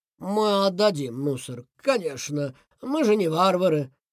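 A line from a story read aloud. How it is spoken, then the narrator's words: Sad. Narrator (Russian): грустно сказал он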